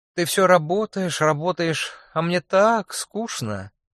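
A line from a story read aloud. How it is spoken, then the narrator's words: Purring. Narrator (Russian): промурлыкала Лара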